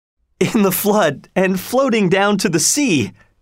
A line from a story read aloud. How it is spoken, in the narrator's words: cried Robin